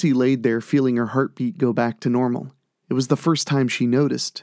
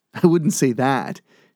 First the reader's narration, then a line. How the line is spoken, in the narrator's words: laughed